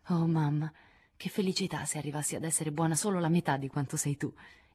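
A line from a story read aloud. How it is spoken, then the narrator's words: Moved exclamation. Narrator (Italian): esclamò commossa Joe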